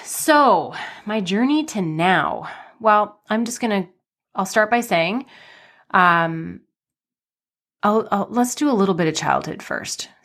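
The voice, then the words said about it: Slightly nasal, congested voice. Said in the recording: “my voice might sound a little funky too. I'm just on the tail end of a cold. So it feels like I'm a little nasally”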